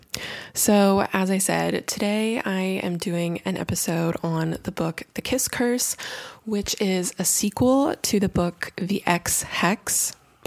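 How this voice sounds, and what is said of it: Raspy voice. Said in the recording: “my voice is still a little bit on the mend ... it is a little bit raspy ... a really nasty chest cold or bronchitis”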